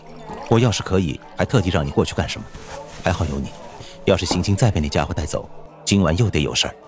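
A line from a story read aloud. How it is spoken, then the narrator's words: Low voice. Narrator (Chinese): 孟思凡低声道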